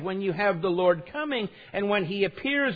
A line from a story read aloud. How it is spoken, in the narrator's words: it says